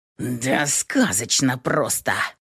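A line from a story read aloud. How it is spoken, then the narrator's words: Growled. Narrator (Russian): прорычал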